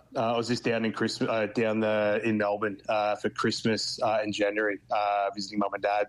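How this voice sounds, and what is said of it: Australian accent. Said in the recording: “You've got the Aussie accent ... keeps my accent safe ... I'm very strong on my R's”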